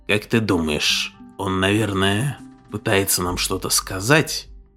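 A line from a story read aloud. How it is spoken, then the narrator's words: Quiet question. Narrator (Russian): тихо спросил Мишел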